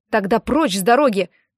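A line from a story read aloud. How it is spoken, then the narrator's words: Shouting. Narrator (Russian): крикнул Дэн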